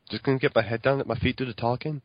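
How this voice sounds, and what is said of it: Liverpool Scouse impression of Steven Gerrard. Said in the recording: “Stephen Gerrard there. Jamie Carragher. ... People from Liverpool are called Scousers”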